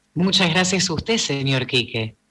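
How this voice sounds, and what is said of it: Radio announcer voice. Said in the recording (Spanish): “la voz que tiró. ... Se clavó voz de locutor. ... Eso es actuar con la voz.”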